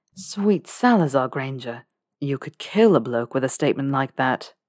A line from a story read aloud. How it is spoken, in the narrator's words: groaned her doppelganger Draco